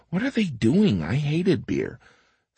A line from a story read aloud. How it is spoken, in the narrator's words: Patrick looking down from heaven, mumbling